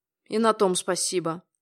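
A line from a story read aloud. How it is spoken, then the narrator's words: Grumble. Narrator (Russian): буркнул Юрий Николаевич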